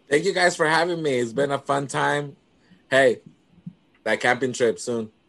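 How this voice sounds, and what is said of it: Worn voice, like partying all night. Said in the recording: “you sound like you have a party girl voice. Like you've been partying this whole night.”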